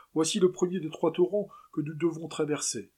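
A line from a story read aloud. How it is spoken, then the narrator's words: Exclaimed. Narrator (French): s'écria José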